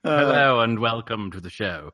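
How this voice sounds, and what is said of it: Exaggerated thick British accent. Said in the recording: “our favorite British voice ... Pour on the accent, terribly thick.”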